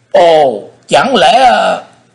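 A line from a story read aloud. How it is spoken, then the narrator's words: Startled exclamation. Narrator (Vietnamese): quái nhân mặt đỏ như chu sa, nhìn thấy Thế Hùng, liền thối lui trở lại hai bước, miệng kêu lên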